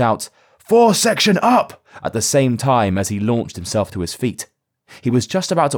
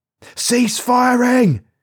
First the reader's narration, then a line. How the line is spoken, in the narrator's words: Carter shouted, straining his voice to make himself heard above the cacophony of small arms fire